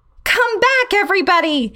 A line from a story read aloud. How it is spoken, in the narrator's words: I yelled to the rest of the class